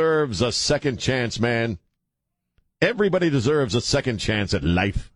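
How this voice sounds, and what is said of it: Usual voice. Nothing is said of it.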